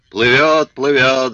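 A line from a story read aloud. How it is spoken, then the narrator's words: Yelled. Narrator (Russian): заорал Филя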